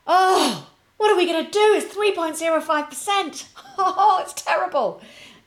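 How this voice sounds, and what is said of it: Sarcastic mock-dismayed delivery. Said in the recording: “of course I'm being sarcastic.”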